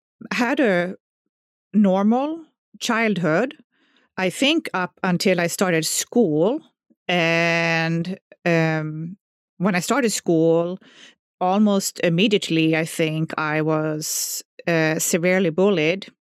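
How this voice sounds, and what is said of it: Swedish accent. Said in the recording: “I grew up in southern Sweden. So, you know, everybody by now can hear my accent. So they know I'm not from America.”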